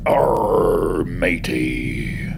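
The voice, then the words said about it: Pirate character voice. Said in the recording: “my Jack Sparrow impression”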